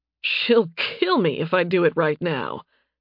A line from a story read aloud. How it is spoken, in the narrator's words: Nathan said with a laugh